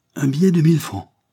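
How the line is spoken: Astonished exclamation. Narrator (French): s'écria-t-il au comble de la stupéfaction

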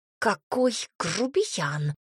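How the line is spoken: Hissed. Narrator (Russian): прошипела Тома

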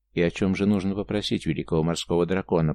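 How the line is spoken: Calm question. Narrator (Russian): по-прежнему спокойно спросил Дансяку

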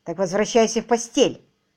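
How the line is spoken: Sharp command. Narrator (Russian): резко приказала она

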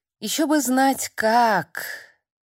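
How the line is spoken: Heavy sigh. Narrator (Russian): Тяжело вздохнув

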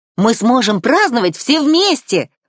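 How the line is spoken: Exclaiming in unison. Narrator (Russian): в унисон воскликнули Адела и Алана

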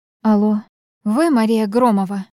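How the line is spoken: Low husky female voice. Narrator (Russian): Женский голос был низким, с хрипотцой

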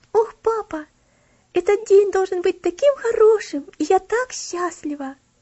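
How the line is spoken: Joyful exclaiming. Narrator (Russian): радостно восклицала Элси

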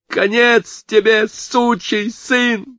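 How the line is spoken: Hoarse hysterical scream. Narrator (Russian): завопил Кевин сорванным истерическим голосом

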